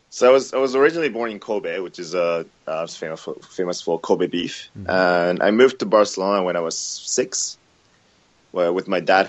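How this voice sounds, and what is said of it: Spanish-accented English. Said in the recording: “you've got picked up this exotic Spanish accent to English”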